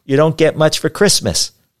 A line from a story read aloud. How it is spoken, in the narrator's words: shouted